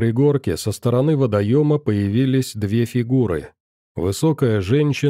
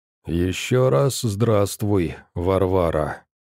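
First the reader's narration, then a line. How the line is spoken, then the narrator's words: Spoken through teeth. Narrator (Russian): процедила ведьма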